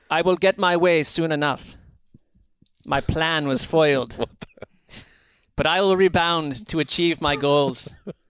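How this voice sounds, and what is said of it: Put-on character voice. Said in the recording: “I'm going to attempt to do a voice here, which could be a disaster ... I'm going to attempt to do a voice, which I'm not good at.”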